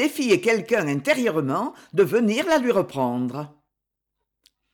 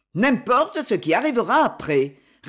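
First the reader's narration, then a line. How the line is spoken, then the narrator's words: Curt reply. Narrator (French): répondit-il d'un ton bref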